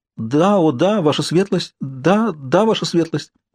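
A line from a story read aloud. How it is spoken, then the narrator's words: Stammering thin trembling voice. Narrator (Russian): отвечает она, заикаясь, тонким дрожащим голосом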